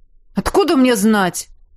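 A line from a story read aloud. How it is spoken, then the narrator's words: Irritated bark. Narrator (Russian): Раздраженно рявкнул он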